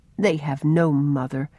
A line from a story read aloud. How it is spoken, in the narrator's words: he used to say to himself with a sigh